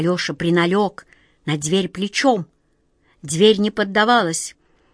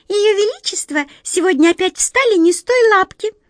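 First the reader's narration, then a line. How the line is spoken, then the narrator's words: Worried squeak. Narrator (Russian): озабоченно пропищала одна мышка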